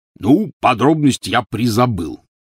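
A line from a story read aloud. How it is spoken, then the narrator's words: Snorting. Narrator (Russian): фыркнул Хагрид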